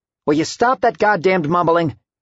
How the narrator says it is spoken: Al shouted

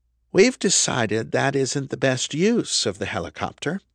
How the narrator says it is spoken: the Reverend said, her voice even and calm

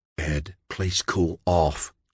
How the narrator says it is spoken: John whispered, trying to sound reassuring

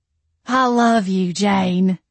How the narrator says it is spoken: Jolene slurred

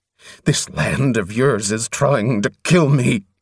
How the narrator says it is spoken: he spat fiercely

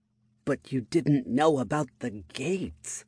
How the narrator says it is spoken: Lifra muttered under her breath

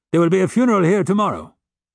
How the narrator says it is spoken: Javert barked

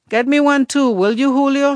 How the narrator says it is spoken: she called out

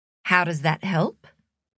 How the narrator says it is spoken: said Logan

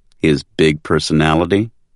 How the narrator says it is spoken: Priscilla asked with a chuckle

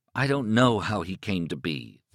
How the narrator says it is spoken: Thad said wearily

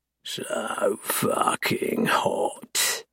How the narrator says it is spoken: I mutter

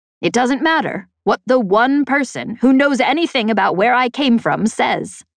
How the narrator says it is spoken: Embot answered, his voice rising

